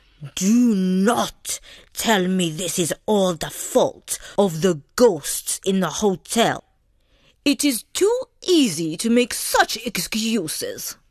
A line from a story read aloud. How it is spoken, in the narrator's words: Zelda said sternly